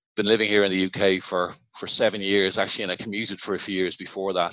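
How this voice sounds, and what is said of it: Irish Dublin accent. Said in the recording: “as you can probably tell from my accent, I'm not originally from St. Albans ... Originally from the south of Dublin”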